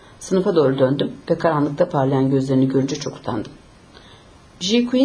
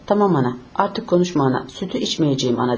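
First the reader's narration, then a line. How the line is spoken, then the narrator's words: Very unhappy voice. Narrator (Turkish): Çok mutsuz bir sesle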